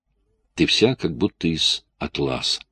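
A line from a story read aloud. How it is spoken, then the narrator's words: Whispering. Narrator (Russian): шептал Джейк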